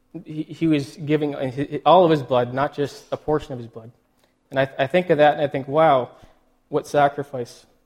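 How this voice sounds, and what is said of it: Emotional, choked-up speaking voice. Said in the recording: “I'm getting a little emotional here ... I'm just getting emotional here. I'll try to get it together here.”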